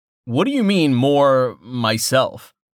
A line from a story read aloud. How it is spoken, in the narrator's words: Tallheart chuckled